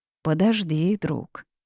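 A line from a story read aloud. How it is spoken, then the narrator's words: Smirking. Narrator (Russian): усмехнулся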